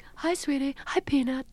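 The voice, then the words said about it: Meryl Streep impression. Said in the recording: “Did you ever mimic Meryl Streep? ... that's Meryl.”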